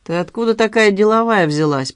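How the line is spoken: Young man, through gritted teeth. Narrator (Russian): процедил парень

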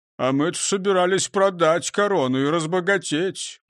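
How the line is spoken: Disappointed grumble. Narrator (Russian): проворчал разочарованный Крендель

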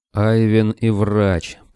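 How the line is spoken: Werewolf growling. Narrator (Russian): прорычал оборотень

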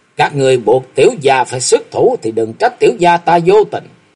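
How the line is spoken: Loud shout. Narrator (Vietnamese): Thạch Mộng quát lớn

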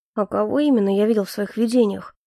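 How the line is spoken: Mumbling to himself. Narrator (Russian): пробормотал Эльфорте, никому толком не обращаясь

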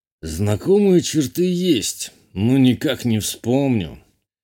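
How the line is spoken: Sigh. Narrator (Russian): Вздохнул Журбер

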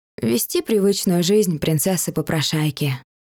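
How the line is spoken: Eerily calm, indifferent, female. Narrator (Russian): ответила Дайна и сама удивилась тому, насколько равнодушно, спокойно и страшно из-за этого спокойного равнодушия сейчас прозвучали ее слова

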